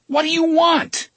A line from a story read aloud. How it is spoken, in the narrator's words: he shouted